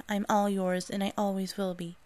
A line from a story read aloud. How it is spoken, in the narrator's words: She quickly submitted while saying